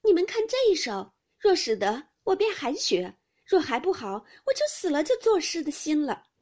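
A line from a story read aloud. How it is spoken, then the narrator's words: Laughing. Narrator (Chinese): 香菱笑道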